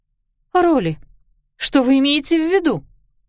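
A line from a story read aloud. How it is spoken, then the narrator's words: Anxious question. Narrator (Russian): взволнованно спросила Клариса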